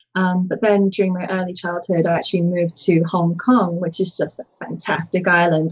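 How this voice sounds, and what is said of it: London English accent. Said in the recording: “if the accent didn't give it away, I was born and raised for some time in London”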